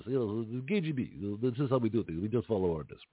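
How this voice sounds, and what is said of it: Bad put-on foreign accent. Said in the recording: “excuse my bad accents.”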